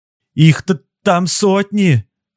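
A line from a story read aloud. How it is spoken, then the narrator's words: Shouting son. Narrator (Russian): крикнул его сын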